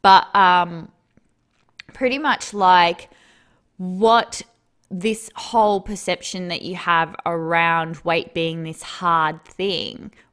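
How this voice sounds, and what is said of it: Tired-sounding voice. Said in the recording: “maybe you can tell by my voice, I'm a little bit tired today”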